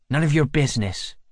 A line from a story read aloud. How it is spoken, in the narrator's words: snaps